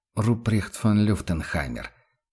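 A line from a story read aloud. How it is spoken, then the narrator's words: Quiet. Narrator (Russian): тихо произнес император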